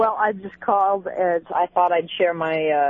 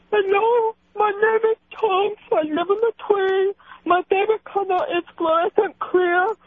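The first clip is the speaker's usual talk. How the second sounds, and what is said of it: Imitates another person's voice. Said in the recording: “my little impression of that man beast known as uh, Chunks ... you still sound like a chick”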